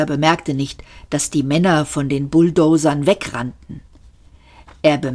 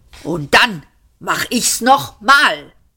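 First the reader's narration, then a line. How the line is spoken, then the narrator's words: Screamed. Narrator (German): schrie Arthur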